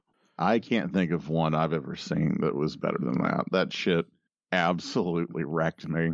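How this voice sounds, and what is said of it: Slightly hoarse voice. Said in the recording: “you can even hear it in my voice a little bit that I am still a little hoarse.”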